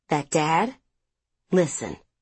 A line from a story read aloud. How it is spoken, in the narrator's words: she said quietly